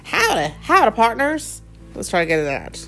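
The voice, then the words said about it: Attempted Texas accent. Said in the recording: “Can you do it in the Texas accent? ... I can try. ... I grew up in Texas, and I still don't have a Texas accent. ... how do you do a Texas accent?”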